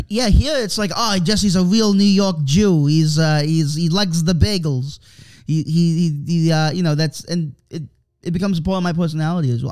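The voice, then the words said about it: New York accent with speech impediment. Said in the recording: “I sound like Elmer Fudd's retarded cousin ... most people just sort of think it's a it's an authentic New York accent ... people recognize it for what it is, which is a speech impediment”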